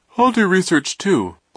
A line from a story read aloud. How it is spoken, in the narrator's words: Klaus said, yawning